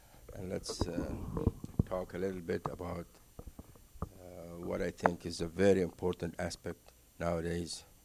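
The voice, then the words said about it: Foreign accent, Egyptian-born speaker. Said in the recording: “I'm born and raised in Egypt, Cairo ... excuse my accent and don't get distracted by my accent.”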